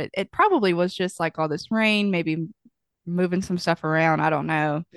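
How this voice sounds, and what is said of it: Nasal, congested voice. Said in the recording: “I sound a little nasally ... I feel congested”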